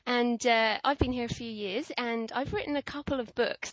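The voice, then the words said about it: British accent. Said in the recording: “I'm British, as you can probably hear from my accent.”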